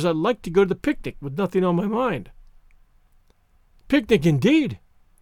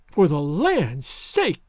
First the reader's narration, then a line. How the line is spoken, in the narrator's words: gasped Marilla